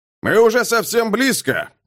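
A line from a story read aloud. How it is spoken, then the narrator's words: Shouting over engines. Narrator (Russian): крикнул он, перекрывая натужный рев двигателей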